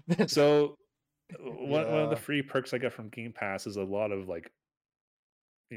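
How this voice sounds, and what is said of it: Usual voice. Nothing is said of it.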